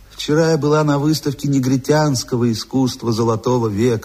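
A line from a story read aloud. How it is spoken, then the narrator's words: Melodious, rolling voice. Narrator (Russian): сообщила она своим певучим голосом, раскатывая звонкое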